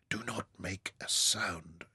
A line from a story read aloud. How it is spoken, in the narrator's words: whispered